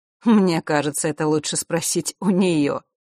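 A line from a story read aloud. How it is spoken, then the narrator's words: Wry snort. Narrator (Russian): хмыкнула повелительница Лютов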